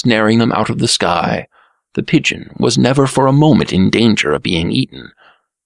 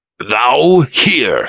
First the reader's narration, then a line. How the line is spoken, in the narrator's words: he snapped